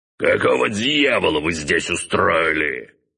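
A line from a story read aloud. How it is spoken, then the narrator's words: Magically amplified roar. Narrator (Russian): проревел отец, не пожалев при этом ни капли маны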